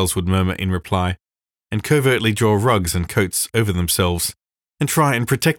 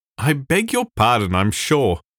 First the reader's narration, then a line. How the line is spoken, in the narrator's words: he would give a pleasant little laugh and say